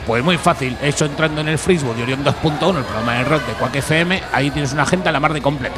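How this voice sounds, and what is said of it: Madrid Spanish accent. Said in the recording (Spanish): “tienes un acento de Madrid”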